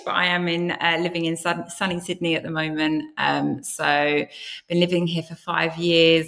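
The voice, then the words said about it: British accent. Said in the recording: “accent fool you, obviously I sound British”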